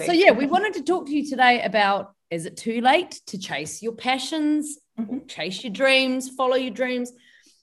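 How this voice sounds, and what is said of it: New Zealand accent. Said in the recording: “my voice is strong. My accent. I think I'm sounding more and more Kiwi now ... I love the Kiwi accent ... Lots of people think I sound Australian”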